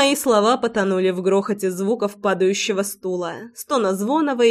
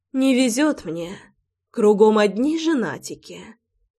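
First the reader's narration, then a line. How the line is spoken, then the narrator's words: Sighed. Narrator (Russian): Вздохнула я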